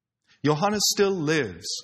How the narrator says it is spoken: Savonius said

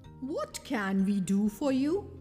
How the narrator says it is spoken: asked

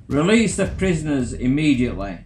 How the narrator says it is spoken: shouted out to the remaining crew

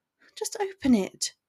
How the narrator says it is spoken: she frowned, anxiously

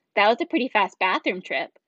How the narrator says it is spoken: Kinsey said

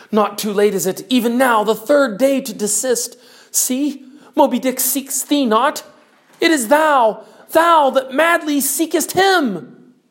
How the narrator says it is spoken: cried Starbuck

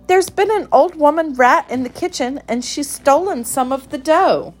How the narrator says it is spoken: cried Moppet

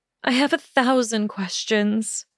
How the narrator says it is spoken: she breathed

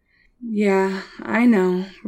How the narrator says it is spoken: Russell sighed

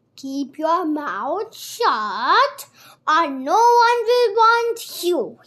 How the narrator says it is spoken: he bellowed

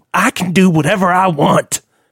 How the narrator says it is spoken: Lionel snapped

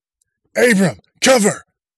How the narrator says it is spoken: officer barked

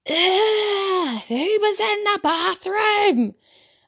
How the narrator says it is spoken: exclaimed

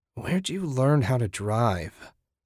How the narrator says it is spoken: Susan croaked

